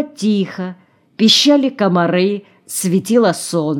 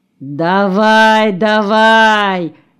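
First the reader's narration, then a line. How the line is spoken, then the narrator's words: Lazy drawl. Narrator (Russian): лениво протянул Куценко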